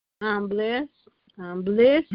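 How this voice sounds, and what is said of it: Cheerful, chipper voice. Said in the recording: “You sound awfully chipper.”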